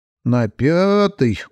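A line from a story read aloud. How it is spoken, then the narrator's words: Gloomy drawl. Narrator (Russian): уныло протянула Мэри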